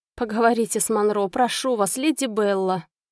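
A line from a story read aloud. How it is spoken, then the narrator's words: Moaning plea. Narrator (Russian): простонала леди Сатеран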